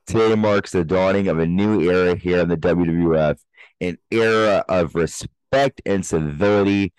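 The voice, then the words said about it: Imitates another person's voice. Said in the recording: “you guys say it in that Vince McMahon voice.”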